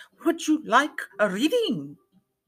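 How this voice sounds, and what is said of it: Heavy Eastern European-style accent. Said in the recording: “Perhaps she is from Romania. ... in a heavy accent voice”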